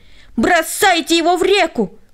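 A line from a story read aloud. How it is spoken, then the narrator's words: Crowd yelling. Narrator (Russian): они все завопили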